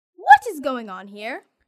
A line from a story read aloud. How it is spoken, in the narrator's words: cried, her voice full of anger